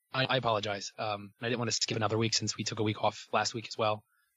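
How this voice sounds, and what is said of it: Rough, damaged voice, not smooth. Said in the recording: “my voice. My voice is really, really bad right now ... it's not as velvety smooth as usual”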